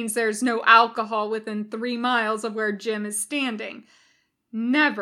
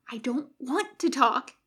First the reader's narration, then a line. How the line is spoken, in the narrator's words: he hisses